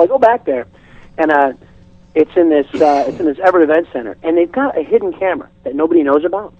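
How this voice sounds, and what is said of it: Usual voice. Nothing is said of it.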